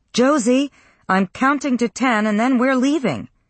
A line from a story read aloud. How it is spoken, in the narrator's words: She leaned into the hallway and yelled up the stairs